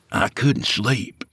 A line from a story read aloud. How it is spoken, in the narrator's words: Skeeter whispered